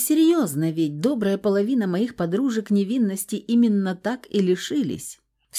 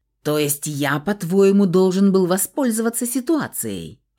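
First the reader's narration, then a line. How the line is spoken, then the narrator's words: Furious growl. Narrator (Russian): Все так же рычал Фауст, сверкая молниями из глаз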